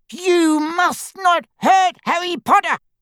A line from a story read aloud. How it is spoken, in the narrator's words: he squeaked